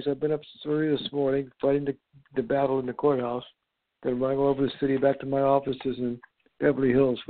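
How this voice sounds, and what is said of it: Weak, tired, slightly breathless voice. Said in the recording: “I had to catch my breath here. My voice is a little weak, guys.”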